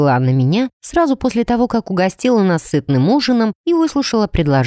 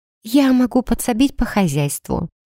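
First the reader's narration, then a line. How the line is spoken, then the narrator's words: Quiet. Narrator (Russian): тихо произнесла Аоки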